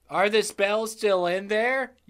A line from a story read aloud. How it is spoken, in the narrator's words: asked